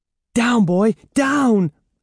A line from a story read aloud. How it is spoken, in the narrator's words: Evan cried